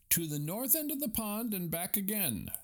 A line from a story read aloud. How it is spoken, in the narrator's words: shouted the referee